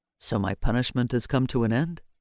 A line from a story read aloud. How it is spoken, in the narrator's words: he softly asked